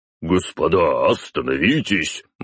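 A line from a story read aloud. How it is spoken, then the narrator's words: Exclaiming. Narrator (Russian): воскликнул он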